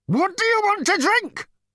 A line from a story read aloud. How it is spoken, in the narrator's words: Number Two screamed